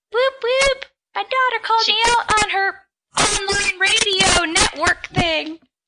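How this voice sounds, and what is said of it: Old lady voice. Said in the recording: “I used an old lady voice.”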